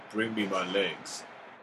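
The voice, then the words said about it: Imitates a movie character's voice. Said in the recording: “That's a good impression”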